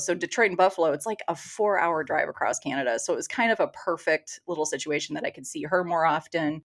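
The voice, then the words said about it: Strong Michigan accent. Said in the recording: “that Michigan accent is strong”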